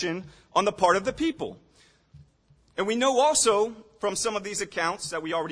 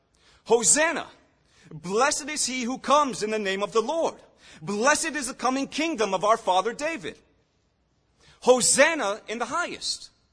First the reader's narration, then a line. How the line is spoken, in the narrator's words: they're shouting